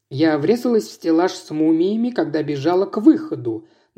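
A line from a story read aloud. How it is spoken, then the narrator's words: Plain. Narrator (Russian): наконец сказала она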